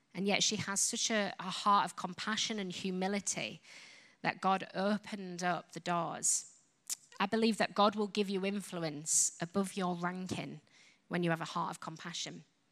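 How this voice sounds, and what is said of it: British English accent. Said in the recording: “I'm British, you've probably guessed from the accent.”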